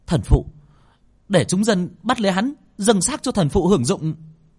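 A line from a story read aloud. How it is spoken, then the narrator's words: Woman shouting. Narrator (Vietnamese): người phụ nữ kia quát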